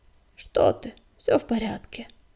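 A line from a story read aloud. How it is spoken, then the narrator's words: Hoarse wheeze. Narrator (Russian): прохрипел глашатай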